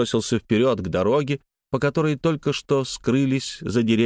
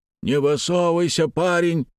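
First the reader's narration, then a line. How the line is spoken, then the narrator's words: Distant warning shout. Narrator (Russian): крикнули ему со стороны обоза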